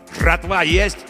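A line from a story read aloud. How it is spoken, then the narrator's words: Angry barked shout. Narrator (Russian): гаркнул злой незнакомый голос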